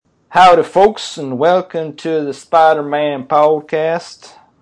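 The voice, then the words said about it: Put-on Southern US accent. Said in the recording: “I don't know why I'm doing a southern accent”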